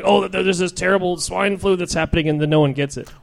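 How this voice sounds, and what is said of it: Weird demon-like news announcer voice. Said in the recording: “That an impression of? ... It's the news. ... everyone sounds like ... a demon? ... really ... Weird voice.”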